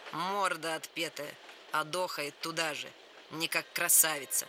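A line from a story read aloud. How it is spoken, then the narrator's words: Insolent voice. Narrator (Russian): Наглым голосом сообщил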